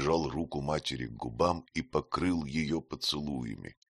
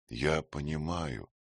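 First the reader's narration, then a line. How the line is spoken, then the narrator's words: Quiet. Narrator (Russian): тихо сказал Петр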